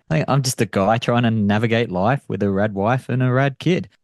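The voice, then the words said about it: Australian accent. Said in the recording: “You have an accent ... Still working on the accent. ... From Australia.”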